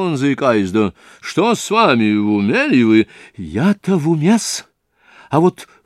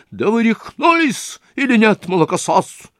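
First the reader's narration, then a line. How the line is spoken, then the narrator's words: Shrieked. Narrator (Russian): взвизгнул Лужин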